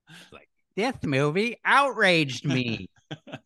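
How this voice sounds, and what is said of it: Imitates another person's voice. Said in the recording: “My Ben Shapiro impression.”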